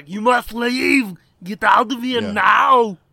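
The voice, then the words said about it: Put-on German accent, shouting. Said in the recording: “in a German accent”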